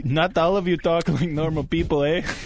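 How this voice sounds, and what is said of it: Badly done put-on foreign accent. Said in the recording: “An awful accent. ... Shitty Mexican accent. ... That's not a Mexican accent. ... trying to sound like Watto”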